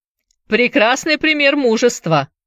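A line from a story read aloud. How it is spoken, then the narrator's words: Loud sarcasm. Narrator (Russian): громко съязвил Шоу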